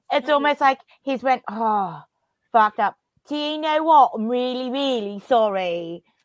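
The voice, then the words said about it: British accent over Australian accent. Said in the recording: “Hearing the British accent on top of your Australian accent is pretty wild.”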